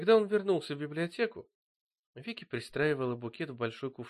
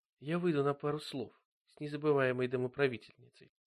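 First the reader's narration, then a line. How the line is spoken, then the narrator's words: Soft. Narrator (Russian): сказал Боб мягко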